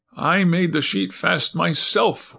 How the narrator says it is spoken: whimpered the man

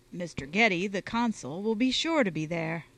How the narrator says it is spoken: said Goodwin

